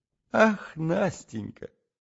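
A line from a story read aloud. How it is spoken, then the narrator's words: Laughing. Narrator (Russian): И оба мы засмеялись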